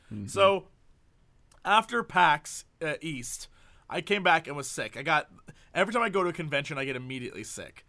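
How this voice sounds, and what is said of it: Sick-sounding voice. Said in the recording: “I'm getting over a cold. As you can hear from my voice, I've been sick.”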